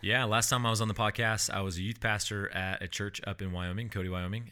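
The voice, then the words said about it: Deep, resonant radio voice. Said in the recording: “the deep, the beautiful radio voice”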